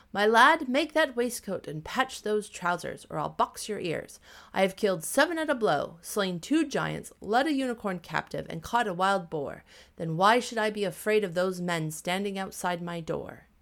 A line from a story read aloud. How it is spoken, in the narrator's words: The little tailor began to call out in a clear voice